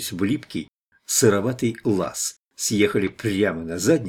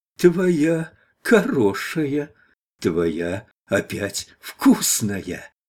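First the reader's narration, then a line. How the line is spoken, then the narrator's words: Joyful wailing, sputtering old man. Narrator (Russian): Радостно заголосил старичок-толмач и захлебнулся в собственной слюне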